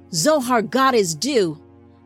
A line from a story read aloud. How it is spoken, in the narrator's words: the pack leader shouted